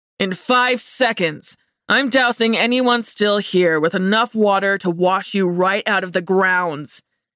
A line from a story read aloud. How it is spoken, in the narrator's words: he bellowed